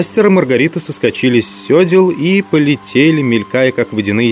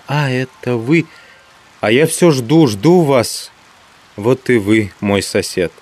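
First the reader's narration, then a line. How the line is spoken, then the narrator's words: Joyful. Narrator (Russian): сказал радостно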